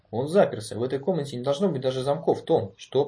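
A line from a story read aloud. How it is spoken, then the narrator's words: Grumbling mutter. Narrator (Russian): пробурчал О'Брайен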